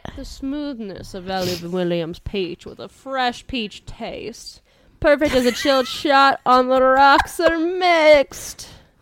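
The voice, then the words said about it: Unconvincing put-on Southern accent. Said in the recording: “Is that not supposed to be like a southern accent? ... It wasn't whatever it was”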